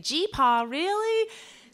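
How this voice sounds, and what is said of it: Southern accent. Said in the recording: “when I did have a southern accent”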